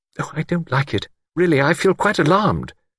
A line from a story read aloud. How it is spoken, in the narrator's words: Miss Wainfleet exclaimed